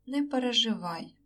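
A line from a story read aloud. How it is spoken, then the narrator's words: Gentler. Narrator (Ukrainian): мовив більш лагідно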